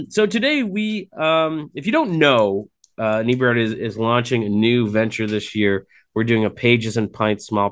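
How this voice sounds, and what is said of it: Hoarse, rough voice. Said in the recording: “My voice is pretty shot between being outside in this wonderful smoky air and allergies and pollen and whatnot ... if my voice isn't as silky smooth as it always is”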